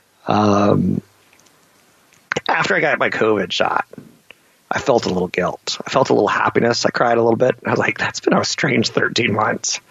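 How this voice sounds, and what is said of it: Emotional, choked-up voice. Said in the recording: “You can hear me getting emotional right now.”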